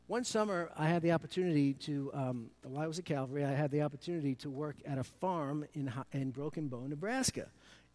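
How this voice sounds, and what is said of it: Brooklyn New York accent. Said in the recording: “my Brooklynese accent, I'm from New York City”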